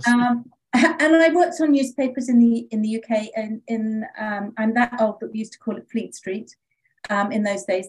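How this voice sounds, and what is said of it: British accent. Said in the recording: “I am British, as you can hear, with a funny accent.”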